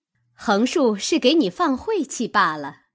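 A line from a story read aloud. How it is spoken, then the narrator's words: Laughing. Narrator (Chinese): 探春笑道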